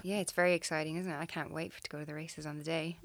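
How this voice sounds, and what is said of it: Irish accent. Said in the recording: “Originally from Ireland... People tell me I still haven't lost my accent.”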